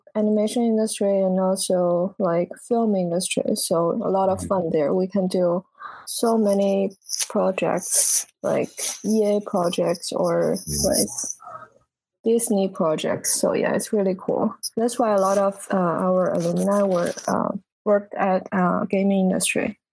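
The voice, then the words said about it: Noticeable foreign accent. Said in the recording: “I'm sensing an accent.”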